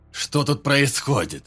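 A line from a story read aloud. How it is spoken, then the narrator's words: Loud, harsh question. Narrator (Russian): Громко и жестко спросил капитан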